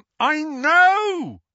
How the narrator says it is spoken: Harry bellowed

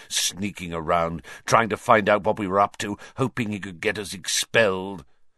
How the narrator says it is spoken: he sneered

